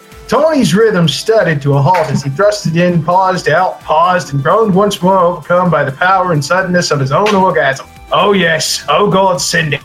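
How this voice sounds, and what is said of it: Shifting 1920s newscaster Australian accent. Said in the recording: “What Rope accent are you doing? ... It's literally crossing massive oceans from word to word. ... It's 1920s newscaster mixed with an Australian mixed with somebody who just lit their penis on fire.”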